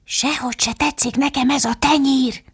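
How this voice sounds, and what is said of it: Whispering voice. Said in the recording (Hungarian): “Alice hallotta, hogy ilyesmiket suttognak.”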